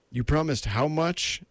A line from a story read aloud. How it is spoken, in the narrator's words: He cried in horror